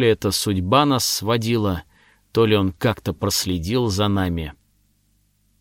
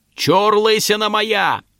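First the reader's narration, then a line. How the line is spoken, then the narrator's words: Shouted. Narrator (Russian): Я оскалился и крикнул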